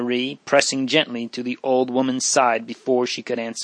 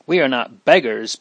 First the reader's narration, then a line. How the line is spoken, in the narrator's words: broke out Leonor angrily